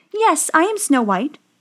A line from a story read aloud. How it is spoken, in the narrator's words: she said